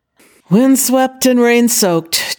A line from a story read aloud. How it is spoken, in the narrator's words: Zhao Yunlan said with a groan